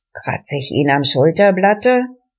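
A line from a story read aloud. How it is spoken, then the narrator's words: Murmured. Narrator (German): von ihnen raunte einer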